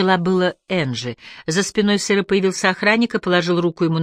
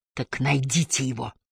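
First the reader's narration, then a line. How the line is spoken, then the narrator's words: Hissed. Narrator (Russian): прошипел сыр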